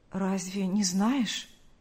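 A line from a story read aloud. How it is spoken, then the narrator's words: Trembling voice. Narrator (Russian): произнес Павел дрогнувшим голосом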